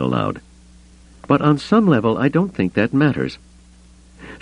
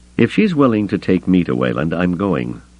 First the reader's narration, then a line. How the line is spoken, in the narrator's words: Luke added firmly